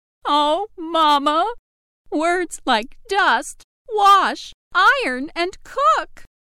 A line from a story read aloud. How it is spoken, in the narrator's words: Still sobbing, replied